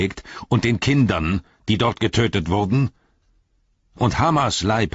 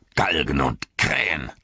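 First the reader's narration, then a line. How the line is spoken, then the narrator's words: Male hiss. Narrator (German): zischte er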